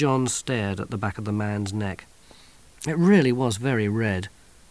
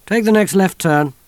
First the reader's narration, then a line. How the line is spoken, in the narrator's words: snapped